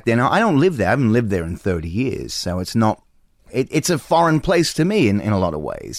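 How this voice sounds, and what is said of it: Heavy Australian accent, somewhat softened. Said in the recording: “you still got a heavy accent, right? ... It's morphed over a bit ... when my Letterman episode aired in Australia, people from there emailed me and said, you might be fooling the Yanks, but we know better.”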